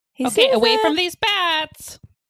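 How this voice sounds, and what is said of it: Screaming teenage girl, Nebraskan accent. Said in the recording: “a teenage girl with a Nebraskan accent screaming at people to get away from bats ... Nebraska through and through”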